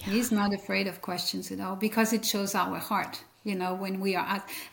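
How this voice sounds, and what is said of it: European accent. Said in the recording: “you have an accent ... Born and raised in Europe”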